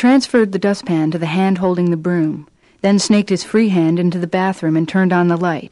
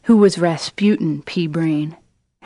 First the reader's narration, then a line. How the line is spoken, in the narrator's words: Howard Mitla murmured